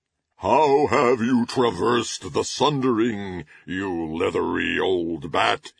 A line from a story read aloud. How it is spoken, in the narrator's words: he roared